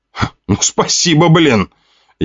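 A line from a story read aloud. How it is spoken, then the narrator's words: Indignant. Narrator (Russian): Я возмутился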